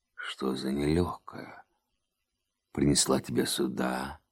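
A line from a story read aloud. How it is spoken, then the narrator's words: Hoarse woman's voice. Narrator (Russian): сказала она осиплым голосом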